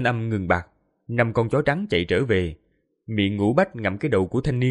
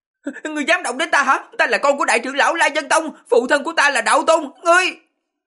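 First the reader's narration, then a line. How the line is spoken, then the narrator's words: Distorted shriek. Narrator (Vietnamese): Tiếng hét vang lên, thanh âm biến giọng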